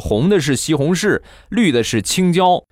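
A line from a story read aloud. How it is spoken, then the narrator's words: Grandmother speaking. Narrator (Chinese): 奶奶说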